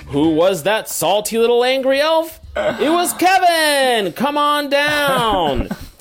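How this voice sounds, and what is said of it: Exaggerated game show host voice. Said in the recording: “my intro sounds like I'm on a game show ... do this stupid voice even harder”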